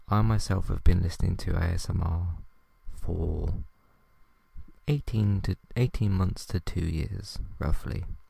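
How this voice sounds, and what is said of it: Very quiet, soft ASMR-style speech. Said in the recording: “why are you talking so quietly? Why is ... talking so quietly? This is kind of the volume that you talk for an ASMR episode.”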